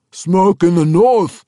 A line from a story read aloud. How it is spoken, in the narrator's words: one of the orcs yelled then, pointing eagerly